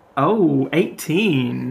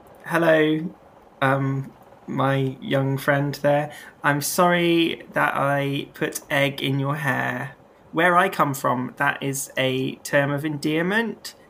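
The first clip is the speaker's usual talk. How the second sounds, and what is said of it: Speaks with a put-on accent. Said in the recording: “As you can tell from my accent, I'm not like these other folk.”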